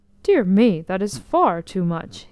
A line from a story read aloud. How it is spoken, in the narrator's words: he cried